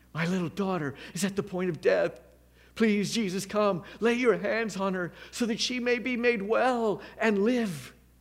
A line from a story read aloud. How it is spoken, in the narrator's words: Jairus ... begged him repeatedly